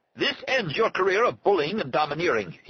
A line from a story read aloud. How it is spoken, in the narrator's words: he shouted at Arnie